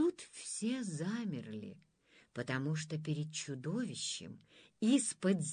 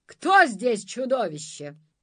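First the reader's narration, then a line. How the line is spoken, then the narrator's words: Loud question. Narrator (Russian): громко спросил Иван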